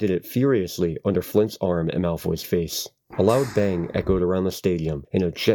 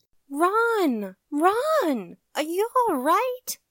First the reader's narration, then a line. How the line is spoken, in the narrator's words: squealed Hermione